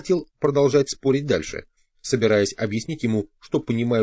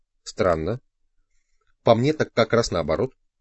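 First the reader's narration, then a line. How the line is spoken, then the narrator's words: Calm reply. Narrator (Russian): спокойно ответил Дон Хуан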